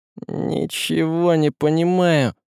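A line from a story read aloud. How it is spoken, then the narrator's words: Muttered. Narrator (Russian): пробормотал Василий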